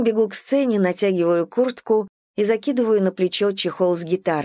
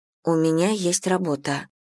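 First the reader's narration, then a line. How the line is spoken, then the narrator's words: Quiet muttering to self. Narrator (Russian): тихо твержу себе я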